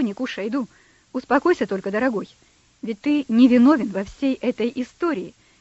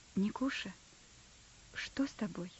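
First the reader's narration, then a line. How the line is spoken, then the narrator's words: Quiet question. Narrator (Russian): кто-то тихо спросил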